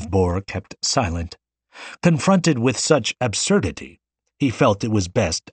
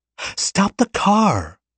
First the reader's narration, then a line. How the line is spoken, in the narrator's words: cried Xu